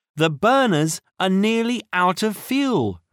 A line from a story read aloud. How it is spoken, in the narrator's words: Tiger cried